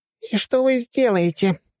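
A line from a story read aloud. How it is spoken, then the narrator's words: Squeaky voice. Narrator (Russian): раздался пищащий голос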